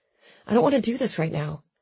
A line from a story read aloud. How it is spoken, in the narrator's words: I said, my voice hoarse